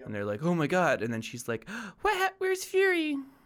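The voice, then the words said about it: Put-on girl voice. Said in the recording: “that's my girl voice. ... That's the same voice.”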